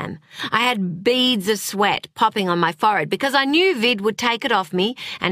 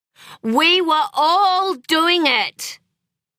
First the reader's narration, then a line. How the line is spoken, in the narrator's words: shouted Clementine